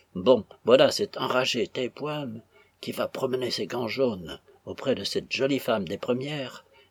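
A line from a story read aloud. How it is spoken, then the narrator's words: Muttering through teeth. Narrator (French): murmura Fripps entre les dents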